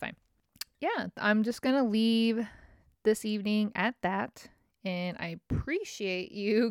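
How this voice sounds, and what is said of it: Usual voice. Nothing is said of it.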